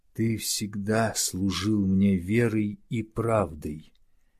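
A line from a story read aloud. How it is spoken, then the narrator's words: Slow, breathless, long pauses. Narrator (Russian): Денсима говорил медленно и с протяжными паузами, переводя дух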